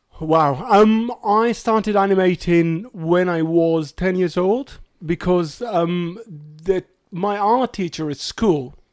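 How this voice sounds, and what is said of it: British English accent. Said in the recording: “English accent on our podcast... As English as it gets... you're our British accent”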